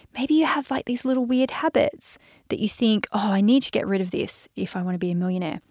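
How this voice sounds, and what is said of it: Australian accent. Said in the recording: “I'm Australian... I'm Australian, mate. I'm an Aussie... my accent's so Aussie”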